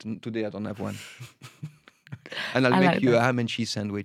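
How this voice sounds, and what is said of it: French accent. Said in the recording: “Because I'm French ... I love your accent.”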